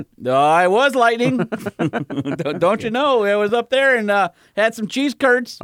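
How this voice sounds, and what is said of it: Put-on Yooper accent. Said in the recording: “as a youper ... Did you do the accent? Were you surrounded by the accent?”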